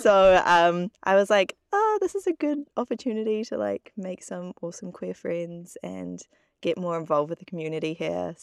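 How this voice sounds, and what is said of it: New Zealand accent. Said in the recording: “going home to finish my degree in New Zealand. If you can tell the accent difference.”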